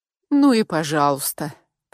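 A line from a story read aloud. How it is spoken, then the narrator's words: Grumbling. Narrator (Russian): проворчала я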